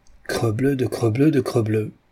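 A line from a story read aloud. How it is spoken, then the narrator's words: Hoarse, just-woken grumble. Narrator (French): grogna la voix éraillée de quelqu'un qui s'éveille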